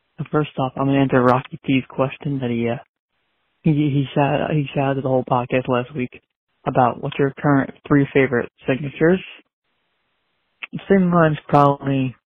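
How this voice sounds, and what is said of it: Whispering. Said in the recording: “I'm whispering because it's nighttime around my house sleeping.”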